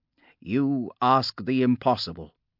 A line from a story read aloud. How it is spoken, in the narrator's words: Hesh had said